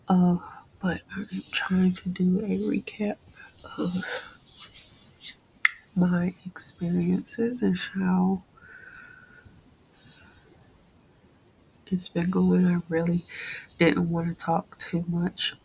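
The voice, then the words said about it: Tired, mumbling voice. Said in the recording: “I'm really tired because I'm mumbling”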